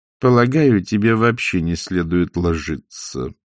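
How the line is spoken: Through gritted teeth. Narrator (Russian): процедила матушка

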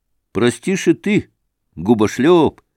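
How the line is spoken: Cheerful. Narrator (Russian): сказал он весело

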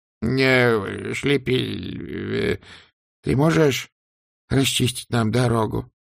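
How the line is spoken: Trembling voice. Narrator (Russian): дрожащим голосом спросил Сдумс

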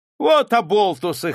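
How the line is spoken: Guffawing. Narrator (Russian): хохотал урядник

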